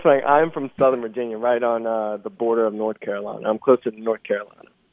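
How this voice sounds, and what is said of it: Slight Southern twang. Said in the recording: “I'm getting a little twang there.”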